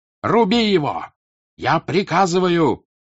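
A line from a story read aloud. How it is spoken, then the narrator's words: Frightened shout. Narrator (Russian): прокричал вдруг побледнев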